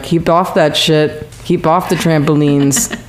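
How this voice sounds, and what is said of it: Poor English accent. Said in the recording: “you could do a better English accent than that. ... Okay, you can't.”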